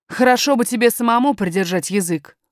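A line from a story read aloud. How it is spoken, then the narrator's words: Nanny speaking rudely. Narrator (Russian): грубо сказала няня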